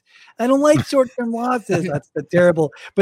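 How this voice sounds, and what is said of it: Whiny imitated voice. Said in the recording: “I wish I could make Mike's whiny voice.”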